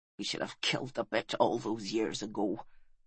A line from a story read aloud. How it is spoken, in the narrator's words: he said bitterly